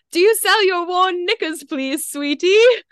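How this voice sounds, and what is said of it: Put-on proper British accent. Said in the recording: “they're definitely British ... I can just picture, like, a really proper little Brit saying it. So I'm going to say it in an accent.”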